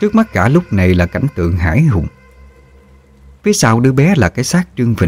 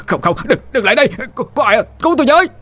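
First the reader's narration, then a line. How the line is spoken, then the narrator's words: Child's terrified scream. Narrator (Vietnamese): đứa bé, rú lên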